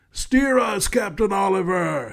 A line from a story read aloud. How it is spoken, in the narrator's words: a gravelly voice yell